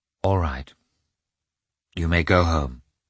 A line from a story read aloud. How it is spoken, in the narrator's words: she said softly to Mikhail